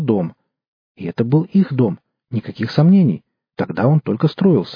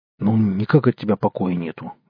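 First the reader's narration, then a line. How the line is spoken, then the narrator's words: Gruff mutter. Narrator (Russian): буркнул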